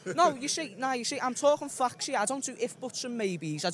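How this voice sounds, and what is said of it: Deep possibly Liverpool English accent. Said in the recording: “What is that, Liverpool? What is that accent? ... Yeah, it's a deep...”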